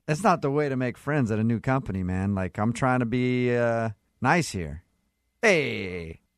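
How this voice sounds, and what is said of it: Put-on New York accent. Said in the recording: “cut the f***ing New York accent”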